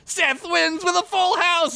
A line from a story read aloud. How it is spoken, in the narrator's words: Aksun shouted